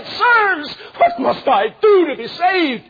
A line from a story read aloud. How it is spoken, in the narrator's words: he fell before them and cried